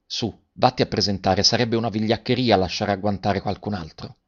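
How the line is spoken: Said softly. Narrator (Italian): Garrone che disse piano a Garoffi

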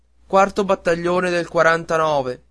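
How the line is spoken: Frantic yell. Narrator (Italian): Coretti perdé la testa e urlò

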